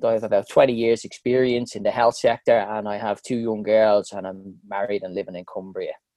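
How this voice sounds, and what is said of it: Irish Dublin accent. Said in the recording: “I'm originally from Dublin, as you can probably tell from the accent.”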